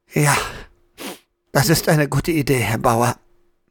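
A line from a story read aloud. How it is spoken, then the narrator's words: Hoarse croaking voice. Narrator (German): Diese, sichtlich froh, dass Herr Bauer sich freiwillig meldete, nickte bekümmert und brachte nach 2 Versuchen krächzend heraus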